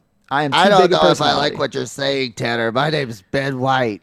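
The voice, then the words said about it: Imitates another person's voice. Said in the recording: “my best impression ... It's not the worst that someone could probably do.”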